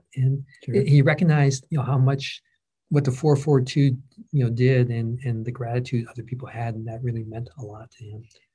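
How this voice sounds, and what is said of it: Choked-up, emotional voice. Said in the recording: “I'm getting choked up,”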